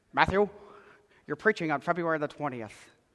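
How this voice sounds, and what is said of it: Imitates another person's voice. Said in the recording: “I do a really good Dan impression.”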